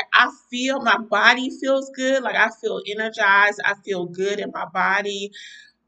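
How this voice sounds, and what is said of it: Tired, weary voice. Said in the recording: “you probably can hear it in my voice. I am tired.”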